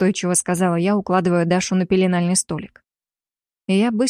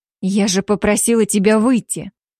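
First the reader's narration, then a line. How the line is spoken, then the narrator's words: Angry snap. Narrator (Russian): зло бросила я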